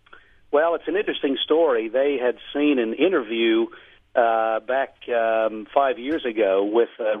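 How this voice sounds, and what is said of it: Australian accent, somewhat Americanized. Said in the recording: “you're still an Aussie ... I can still hear the accent, though. You've changed a bit.”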